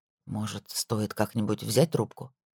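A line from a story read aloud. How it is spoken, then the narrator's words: Gentle question. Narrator (Russian): мягко спросил Итан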